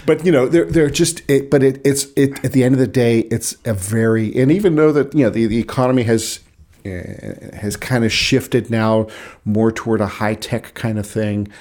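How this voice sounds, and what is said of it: North Side Pittsburgh accent. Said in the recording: “my accent is North Side Pittsburgh”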